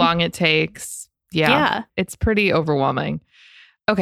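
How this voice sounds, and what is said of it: Usual voice. Nothing is said of it.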